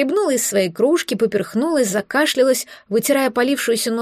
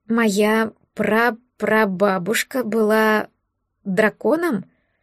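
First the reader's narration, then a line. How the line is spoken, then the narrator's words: Hoarse, strained voice. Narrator (Russian): Севшим голосом просипела я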